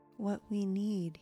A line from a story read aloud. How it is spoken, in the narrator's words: groaned